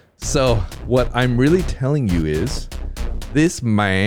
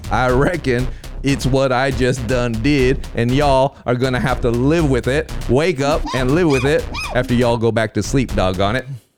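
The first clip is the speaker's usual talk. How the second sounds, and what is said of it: Exaggerated put-on regional accent. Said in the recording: “this kind of ambiguously appropriated accent”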